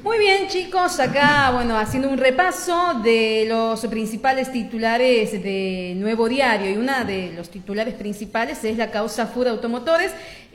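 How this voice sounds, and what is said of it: Polished radio announcer voice. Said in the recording (Spanish): “No me pongas a voz de locutora ... Pero es mi voz ... No hagas voz de locutora, pero el problema es que es mi voz natural ya.”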